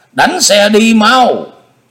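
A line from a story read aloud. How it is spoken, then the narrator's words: Shout in Mongolian. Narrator (Vietnamese): Na Khâm hét lên một tiếng bằng tiếng Mông Cổ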